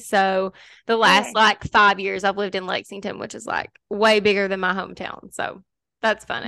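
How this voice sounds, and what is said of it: Kentucky accent. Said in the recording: “I live in Kentucky ... I should have known that from your accent.”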